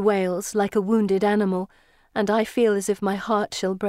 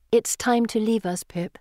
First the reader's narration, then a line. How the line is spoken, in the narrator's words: I say softly